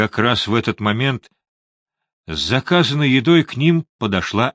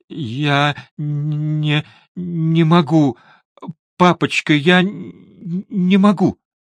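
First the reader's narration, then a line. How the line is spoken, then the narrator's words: Sobbing, struggling to speak. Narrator (Russian): Сквозь всхлипывание он с трудом произнес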